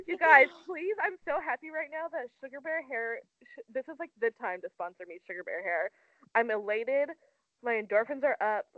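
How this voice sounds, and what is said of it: Very perky, excited voice. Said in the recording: “you sound mad perky right now”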